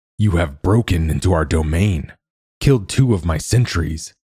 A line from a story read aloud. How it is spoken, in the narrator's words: Cal's father snarled